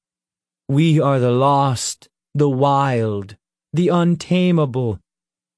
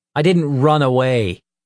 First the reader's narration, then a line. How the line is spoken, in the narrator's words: Nick snapped